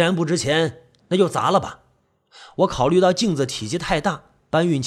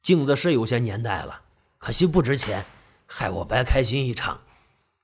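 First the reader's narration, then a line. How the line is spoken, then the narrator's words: Sighing. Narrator (Chinese): 老钟看了半天，叹了口气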